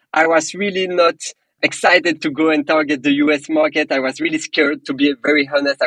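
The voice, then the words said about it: Strong French accent. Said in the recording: “I'm personally from Belgium. I have a very strong French accent.”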